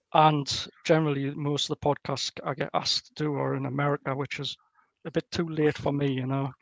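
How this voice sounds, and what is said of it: Strong accent. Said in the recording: “my accent ... it's quite strong”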